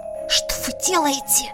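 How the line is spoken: Hissed. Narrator (Russian): Прошипела

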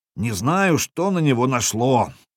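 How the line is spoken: Grumbling bear cub. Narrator (Russian): ворчал медвежонок

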